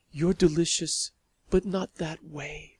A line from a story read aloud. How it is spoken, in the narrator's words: she murmured